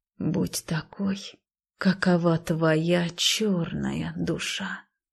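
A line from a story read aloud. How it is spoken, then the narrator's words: Quiet hopeful repetition. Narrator (Russian): тихо повторила я, уповая на свои мифические силы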